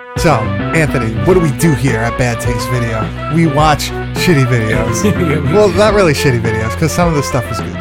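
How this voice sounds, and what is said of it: Over-the-top radio announcer voice. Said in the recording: “I don't normally talk like this ... I'm just trying to be a little over the top ... A little radio voice”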